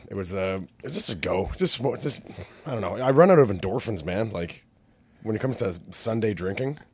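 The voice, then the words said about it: Tired, worn-out voice. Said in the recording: “You can probably hear it in my voice. I'm a little worn out.”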